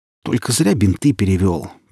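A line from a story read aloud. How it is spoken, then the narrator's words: Reproachful grumble. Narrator (Russian): проворчала Оля, укоризненно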